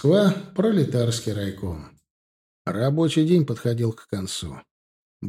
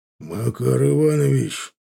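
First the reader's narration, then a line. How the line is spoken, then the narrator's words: Harsh hiss. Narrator (Russian): жестко прошипел на него Бартко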